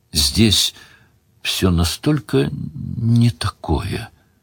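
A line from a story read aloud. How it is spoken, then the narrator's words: Quiet. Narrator (Russian): тихо сказала Делия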